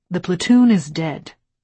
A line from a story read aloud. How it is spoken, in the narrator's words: Rafe said flatly